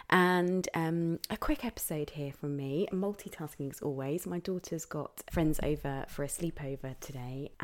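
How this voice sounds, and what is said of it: Croaky voice not fully recovered. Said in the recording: “I hope my voice is going to hold out for this 5 minute episode. It's not quite back properly yet, so I apologize for the croakiness.”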